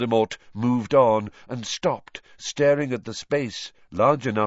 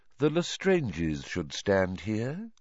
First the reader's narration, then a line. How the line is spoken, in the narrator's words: said Voldemort quietly